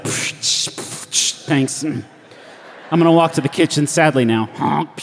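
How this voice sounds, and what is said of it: Sad, lonely character voice. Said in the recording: “my impression of what a one-man band sounds like ... a very, very lonely one-man band”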